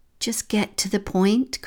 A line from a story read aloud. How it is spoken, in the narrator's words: Christian sighed